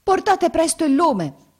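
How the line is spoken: Servant shouting. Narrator (Italian): gridò la sua serva

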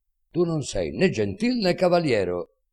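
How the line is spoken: Shouting very loudly. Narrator (Italian): dice gridando quanto può più forte

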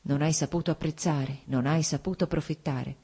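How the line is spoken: Strange crazed murmur. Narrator (Italian): sentì ripetere con uno strano, pazzo mormorio

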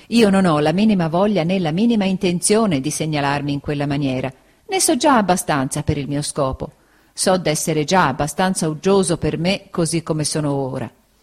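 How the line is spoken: Laughing. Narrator (Italian): disse Steerforth ridendo

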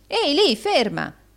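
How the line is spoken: Shouting. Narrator (Italian): gridò Rodolfo

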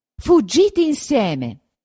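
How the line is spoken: Shout. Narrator (Italian): gridò

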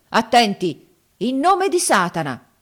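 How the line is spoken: Solemn shout. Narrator (Italian): gridò poi con aria solenne

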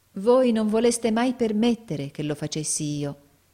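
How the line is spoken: Loving reproach. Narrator (Italian): disse Nicola in tono di amorevole rimprovero

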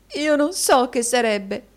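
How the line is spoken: Sobbing. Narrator (Italian): singhiozzò la signorina Squeers

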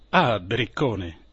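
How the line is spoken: Captain exclaiming. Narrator (Italian): esclamò il capitano

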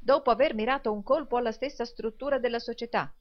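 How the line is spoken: Exclamation. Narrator (Italian): esclamò il signor Lillywick

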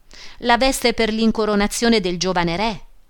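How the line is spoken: Plain. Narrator (Italian): rispose

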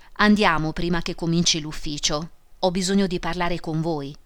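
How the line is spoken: Plain. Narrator (Italian): disse la vedova

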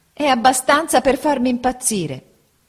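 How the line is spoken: Shouted. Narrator (Italian): gridò mia madre

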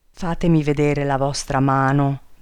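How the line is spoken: Trembling, heavy sigh. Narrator (Italian): disse tremando e con un grosso sospiro

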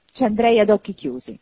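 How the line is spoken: Exclamation. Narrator (Italian): esclamò Scrooge

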